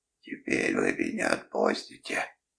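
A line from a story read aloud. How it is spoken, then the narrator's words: Hoarse, lost-boy tone. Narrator (Russian): спрашивает он хриплым голосом с интонациями потерянного мальчика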